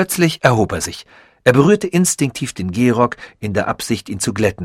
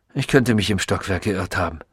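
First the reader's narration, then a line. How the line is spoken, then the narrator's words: Distracted murmur. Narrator (German): murmelte er, als sei er mit etwas anderem, weit wichtigerem beschäftigt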